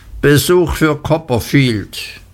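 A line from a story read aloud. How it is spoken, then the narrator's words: Loud announcement. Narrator (German): kam Tongay herein und rief laut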